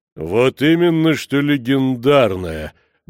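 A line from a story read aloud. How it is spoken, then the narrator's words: Deep bass reply. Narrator (Russian): глубоким басом отозвался Сириус Вайкинен, марграф Озерной Мархии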